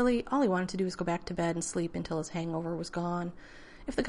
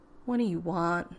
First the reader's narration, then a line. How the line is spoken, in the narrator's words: asked wearily